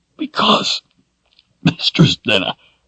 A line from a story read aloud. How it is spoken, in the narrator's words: said hoarsely